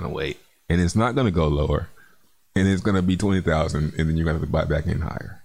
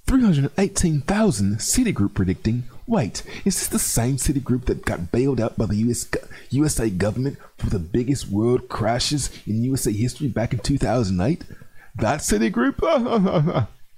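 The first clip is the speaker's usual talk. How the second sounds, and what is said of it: Put-on English accent. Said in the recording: “I gotta read this in an English accent. ... You gotta read that in an English accent”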